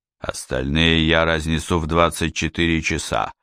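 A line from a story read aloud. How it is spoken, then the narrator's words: Through gritted teeth. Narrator (Russian): сквозь зубы сказал Сварог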